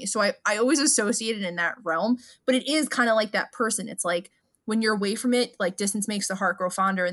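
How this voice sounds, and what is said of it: Thick regional accent. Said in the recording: “my accent comes out ... you have the thickest accent”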